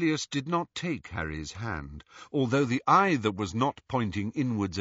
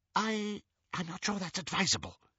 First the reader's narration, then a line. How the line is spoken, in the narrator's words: whispered Xenophilius